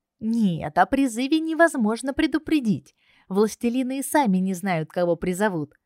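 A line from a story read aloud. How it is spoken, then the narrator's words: Cheerful laughter. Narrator (Russian): весело рассмеялся парень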